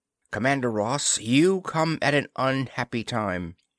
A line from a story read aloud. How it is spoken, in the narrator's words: she said in a harsh voice that was obviously held steady with an effort